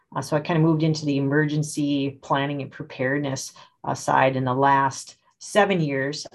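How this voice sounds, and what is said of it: Minnesota accent. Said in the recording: “Minnesota, born and bred, if you can't tell by the accent.”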